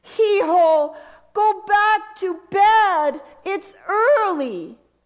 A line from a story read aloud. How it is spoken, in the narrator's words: My mom, still in bed, called out